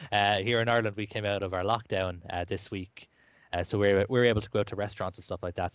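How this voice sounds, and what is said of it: Lilting Irish accent. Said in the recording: “as you can tell by my lyrical accent, I am from Ireland”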